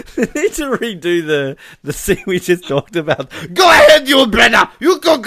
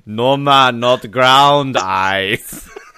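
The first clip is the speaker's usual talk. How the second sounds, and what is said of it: Put-on Jamaican accent. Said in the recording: “Now you need that Jamaican accent.”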